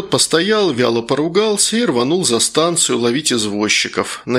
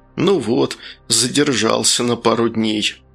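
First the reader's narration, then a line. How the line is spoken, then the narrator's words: Annoyed mutter, plump man. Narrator (Russian): толстячок пальто сплюнул с досады и пробормотал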